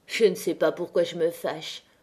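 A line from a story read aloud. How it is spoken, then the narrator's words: Murmured. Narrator (French): murmura-t-il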